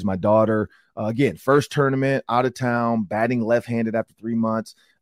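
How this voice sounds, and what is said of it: Slightly raspy voice. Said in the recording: “my voice is a little raspy,... what's going on with ... voice? I was yelling and screaming at a bunch of plays.”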